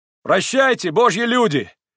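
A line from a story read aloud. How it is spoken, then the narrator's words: Sudden shout. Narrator (Russian): крикнул он вдруг с телеги Митя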